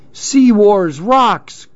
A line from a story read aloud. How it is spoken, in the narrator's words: cried Clark